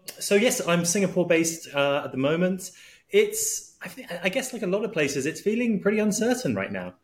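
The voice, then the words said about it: British accent. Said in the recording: “your accent says kind of, you know, UK”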